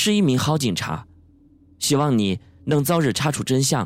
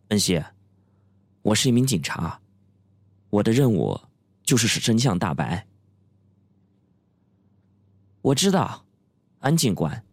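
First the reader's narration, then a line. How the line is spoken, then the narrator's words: Tense, cold. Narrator (Chinese): 朴文熙的脸紧绷了起来，冷冷的说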